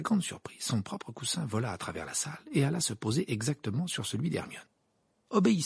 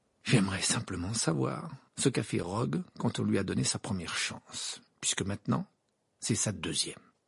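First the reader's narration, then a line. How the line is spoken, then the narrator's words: Grim tone. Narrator (French): dit Harry d'un ton sinistre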